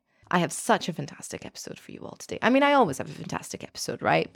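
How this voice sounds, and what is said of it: Excited, buzzing voice. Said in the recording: “I'm buzzing, as you can hear in my voice.”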